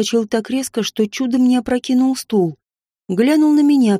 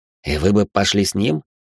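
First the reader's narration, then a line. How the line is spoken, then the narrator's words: Skeptical snort. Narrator (Russian): Хмыкнул Лайтнер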